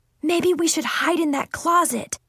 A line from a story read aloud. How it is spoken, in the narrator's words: I shouted quietly